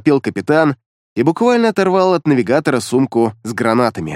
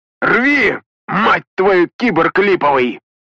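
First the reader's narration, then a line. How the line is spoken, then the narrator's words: Shouting. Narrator (Russian): закричал Петрович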